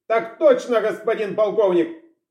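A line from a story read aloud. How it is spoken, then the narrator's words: Bark. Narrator (Russian): рявкнул тот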